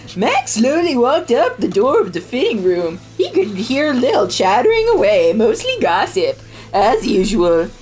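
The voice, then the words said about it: Imitates another person's voice. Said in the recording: “my Ted Bundy voice”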